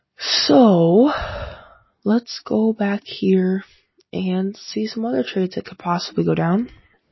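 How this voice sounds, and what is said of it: Scratchy voice. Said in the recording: “My voice is a little scratchy today”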